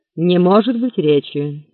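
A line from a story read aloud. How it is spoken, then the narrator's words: Stern creaky voice. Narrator (Russian): сурово проскрипел голос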